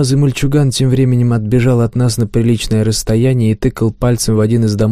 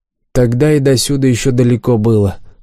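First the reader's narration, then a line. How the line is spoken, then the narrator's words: Grumbling. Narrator (Russian): проворчала Фриша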